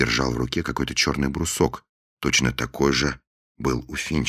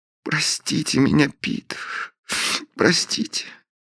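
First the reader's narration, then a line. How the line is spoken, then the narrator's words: Sobbing plea. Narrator (Russian): всхлипнула Белинда, умоляюще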